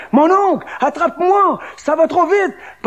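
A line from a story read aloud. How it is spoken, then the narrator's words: Shouting. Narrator (French): Picot criait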